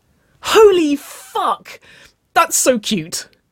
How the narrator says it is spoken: wailed

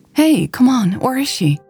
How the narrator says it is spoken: Mary pleaded

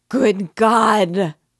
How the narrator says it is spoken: broke in an awful wail from her bosom

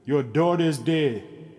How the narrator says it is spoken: he said

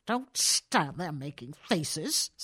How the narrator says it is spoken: snapped bad-humoredly

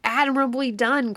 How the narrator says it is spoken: cried Quicksilver

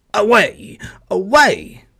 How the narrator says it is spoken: barked the old yard dog

